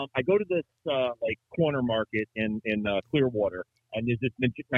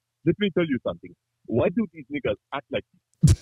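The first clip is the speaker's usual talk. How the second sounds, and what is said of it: Put-on African accent. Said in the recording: “It's a good African accent. ... That is a very good African accent”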